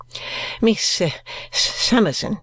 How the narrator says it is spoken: stammered Mr

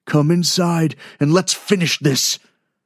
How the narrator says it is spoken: Harp growled

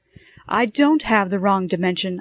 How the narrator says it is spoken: I cried before the operator could hang up

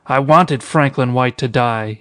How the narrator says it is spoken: he cried

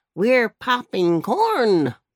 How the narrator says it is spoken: barked Jackie

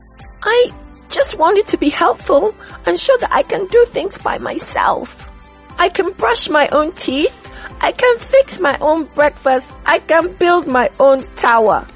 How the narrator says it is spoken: cried Sim Sim

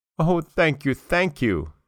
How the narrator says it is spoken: cried, with joy

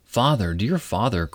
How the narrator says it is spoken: cried little Marigold, who was a very affectionate child

